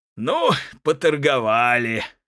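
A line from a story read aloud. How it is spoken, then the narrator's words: Laughing. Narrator (Russian): говорит ему Малахин, смеясь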